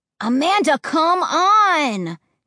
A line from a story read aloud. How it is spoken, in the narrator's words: Josh whined